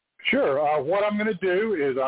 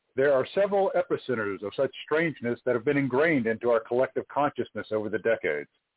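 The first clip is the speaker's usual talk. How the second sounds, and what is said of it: Polished radio announcer voice. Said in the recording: “I'm going to use my very best radio voice”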